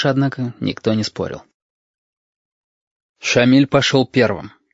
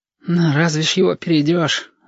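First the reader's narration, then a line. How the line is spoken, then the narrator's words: Sighing. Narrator (Russian): вздохнул кудрявость номер один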